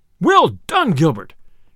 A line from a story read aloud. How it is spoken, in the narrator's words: cried the sheriff, right joyously